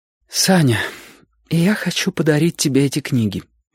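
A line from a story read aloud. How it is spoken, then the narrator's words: Slightly trembling voice. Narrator (Russian): сказала она немного дрожащим голосом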